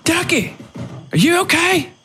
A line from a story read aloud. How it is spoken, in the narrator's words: Sue yelled